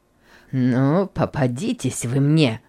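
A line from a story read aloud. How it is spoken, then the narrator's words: Muttering through teeth. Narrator (Russian): бормотал Гейли сквозь зубы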